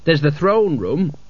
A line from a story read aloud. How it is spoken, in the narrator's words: said Cutwell